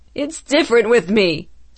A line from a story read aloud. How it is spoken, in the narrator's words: Stuart cried